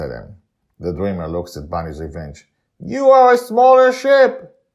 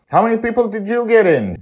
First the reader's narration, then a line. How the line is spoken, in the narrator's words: Joy shouts at him